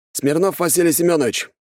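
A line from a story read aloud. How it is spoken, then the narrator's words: Brisk, cheerful reply. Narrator (Russian): бодро ответил Косой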